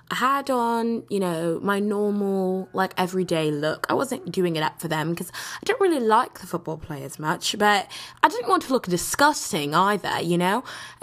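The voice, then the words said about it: Put-on accent. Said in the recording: “why am I still doing this accent?”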